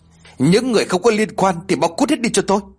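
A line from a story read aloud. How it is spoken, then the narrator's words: Loud emotional yelling. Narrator (Vietnamese): Không làm chủ được cảm xúc của mình, Lê lên tiếng quát tháo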